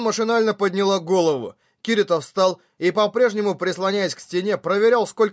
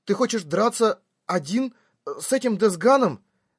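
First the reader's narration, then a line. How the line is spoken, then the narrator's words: Hoarse question. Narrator (Russian): Хриплым голосом спросила Синон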